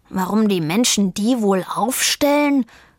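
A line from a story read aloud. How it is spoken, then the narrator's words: Growled. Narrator (German): knurrte Vivaldi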